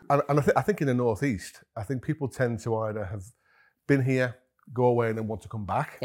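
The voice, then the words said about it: English accent not from Northeast. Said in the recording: “you can probably tell from my accent, really, I'm not from the Northeast originally”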